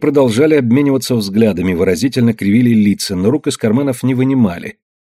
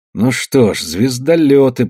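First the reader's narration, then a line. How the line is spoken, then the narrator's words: Muttered. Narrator (Russian): пробормотал Камагин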